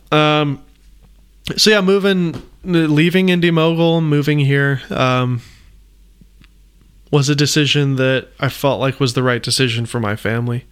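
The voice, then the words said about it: Choked up, emotional voice. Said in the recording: “getting a little choked up.”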